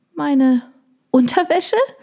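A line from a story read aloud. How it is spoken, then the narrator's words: Squeaky question. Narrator (German): fragte piepsig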